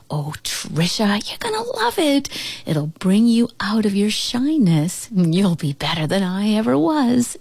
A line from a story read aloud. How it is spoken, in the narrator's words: she cooed